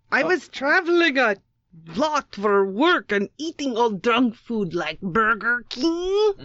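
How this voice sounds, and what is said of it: Put-on accent, Georgian-sounding. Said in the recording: “that accent is Georgia the country or Georgia the state”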